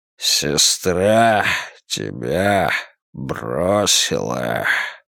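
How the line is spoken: Hoarse croak. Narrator (Russian): прохрипел он

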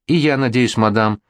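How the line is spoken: Timid, blushing. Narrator (Russian): робко ответила покрасневшая Колумба

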